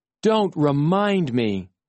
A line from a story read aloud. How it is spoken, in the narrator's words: I groaned